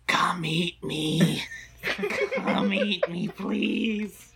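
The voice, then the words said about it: Whispered voice. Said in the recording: “whisper”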